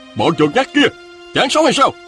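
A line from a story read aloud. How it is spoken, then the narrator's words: Shouting. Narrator (Vietnamese): tiếng Ngọc Chân Tử hét lên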